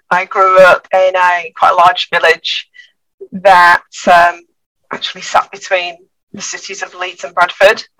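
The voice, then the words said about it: Northern English accent. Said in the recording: “as you can probably tell by the accent, I'm from the north originally”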